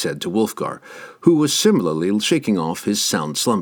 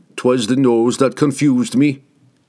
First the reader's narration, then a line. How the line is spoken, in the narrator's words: Wulfgar replied